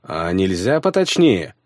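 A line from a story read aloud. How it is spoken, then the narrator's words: Snort. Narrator (Russian): фыркнул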